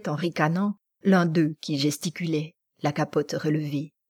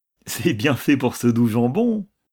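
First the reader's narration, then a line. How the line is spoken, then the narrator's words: Laughing reply. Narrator (French): répondit l'autre en riant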